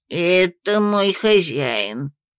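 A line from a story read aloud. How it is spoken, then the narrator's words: Resigned drawl. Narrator (Russian): обреченно протянул дракошка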